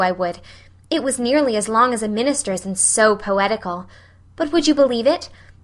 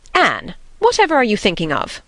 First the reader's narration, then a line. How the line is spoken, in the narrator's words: demanded Marilla sharply